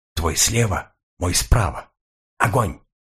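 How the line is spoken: Whisper. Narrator (Russian): я прошептал Сойкину

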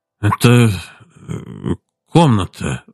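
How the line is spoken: Stammering, embarrassed. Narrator (Russian): запинаясь смущенно, сказал он

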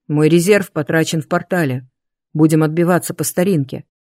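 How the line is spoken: Amused snort. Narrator (Russian): хмыкнул

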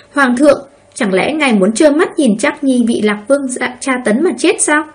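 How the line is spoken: Furious woman. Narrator (Vietnamese): hoàng hậu tức giận vô cùng, nói

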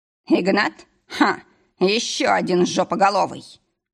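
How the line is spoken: Scoffing snort. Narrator (Russian): фыркнул Адам

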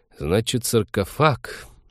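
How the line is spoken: Thoughtful drawl. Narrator (Russian): задумчиво протянул Вениамин

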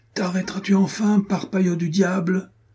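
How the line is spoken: Breathless shout. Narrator (French): cria Renaud hors d'haleine

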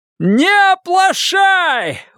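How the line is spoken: Shout. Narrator (Russian): вновь крикнул Форд

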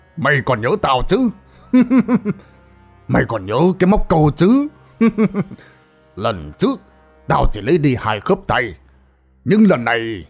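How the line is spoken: Menacing growl. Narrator (Vietnamese): Văn Linh hai mắt trừng lên kinh dị rồi gằn giọng

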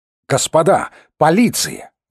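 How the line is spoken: Exclaimed. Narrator (Russian): воскликнул Михайлов

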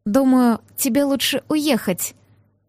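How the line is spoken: Quiet. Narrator (Russian): негромко сказала

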